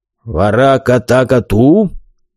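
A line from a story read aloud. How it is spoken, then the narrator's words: Big man's deep bass. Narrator (Russian): пробасил здоровяк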